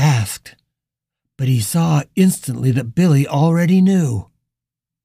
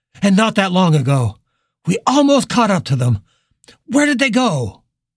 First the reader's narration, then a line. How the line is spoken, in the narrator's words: Richard cried